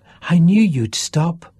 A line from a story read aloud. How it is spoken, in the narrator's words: she told him through her gasps